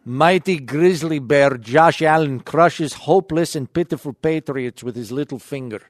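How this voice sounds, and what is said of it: Put-on Kazakhstani accent. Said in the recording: “I will try to do my best Kazakhstani accent.”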